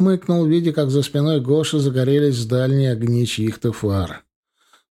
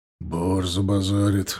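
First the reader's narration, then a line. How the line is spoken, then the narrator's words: Muttered. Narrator (Russian): буркнул Женя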